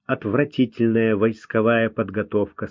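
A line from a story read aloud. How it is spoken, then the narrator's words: Plain. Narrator (Russian): сказал бы Люсьен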